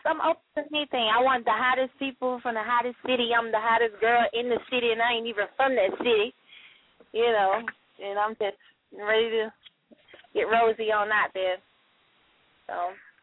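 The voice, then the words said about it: Southern US accent. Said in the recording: “I hear your accent. ... You know, a southern slang girl. Country girl.”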